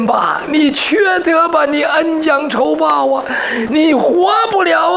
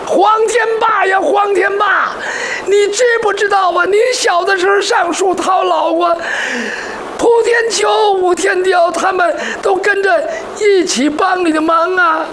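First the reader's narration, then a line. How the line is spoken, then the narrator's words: Crying man scolding. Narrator (Chinese): 哭的男人骂黄天霸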